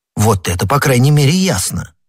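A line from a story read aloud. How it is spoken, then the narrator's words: Plain. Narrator (Russian): сказал Д'Артаньян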